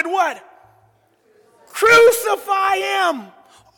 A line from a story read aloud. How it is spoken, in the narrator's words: the crowd shouted